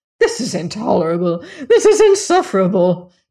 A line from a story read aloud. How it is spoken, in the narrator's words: she cried